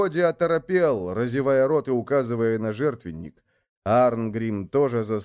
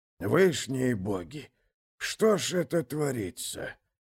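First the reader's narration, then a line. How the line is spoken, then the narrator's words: Muttering. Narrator (Russian): пробормотал, наконец, Годи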